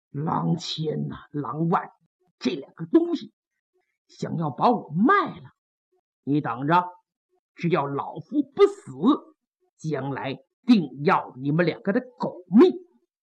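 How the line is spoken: Through gritted teeth. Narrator (Chinese): 潘仁美一咬牙

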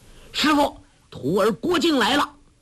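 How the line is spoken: Loud shout. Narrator (Chinese): 郭靖……大声叫道

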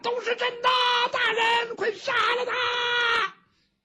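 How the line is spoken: Crowd shouting in unison. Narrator (Chinese): 这堂下很多被去喊冤的人齐声呼喊

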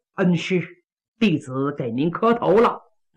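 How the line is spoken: Suppressed anger, forced smile. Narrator (Chinese): 强压怒火换作笑脸

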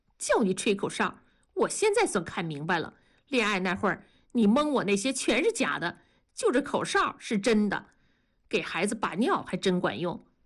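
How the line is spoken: Sudden laughing. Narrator (Chinese): 文丽突然笑了，说

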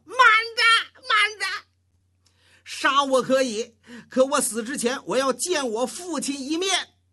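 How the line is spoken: Shouting. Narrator (Chinese): 那石厚喊上了

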